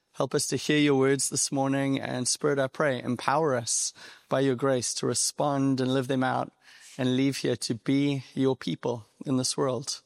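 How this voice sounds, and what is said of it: South African accent. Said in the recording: “you're probably hearing my accent and you're wondering, Australia, New Zealand, England. I get those three a lot, but I'm actually from South Africa on the East Coast, a little city called Durban”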